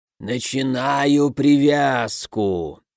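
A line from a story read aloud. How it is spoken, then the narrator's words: Mournful drawl. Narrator (Russian): заунывно протянул ворон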